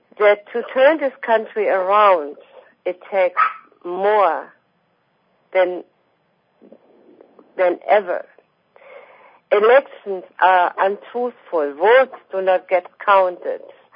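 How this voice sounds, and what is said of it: Foreign accent. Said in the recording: “I'm a foreigner, as you can hear on my accent.”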